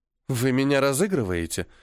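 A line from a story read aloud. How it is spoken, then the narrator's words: Uncertain question. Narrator (Russian): неуверенно спросила Лазарева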